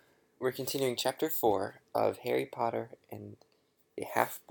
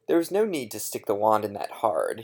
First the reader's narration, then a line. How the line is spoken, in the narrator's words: said gruffly